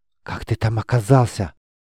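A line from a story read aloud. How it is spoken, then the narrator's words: Whisper. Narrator (Russian): прошептала Майса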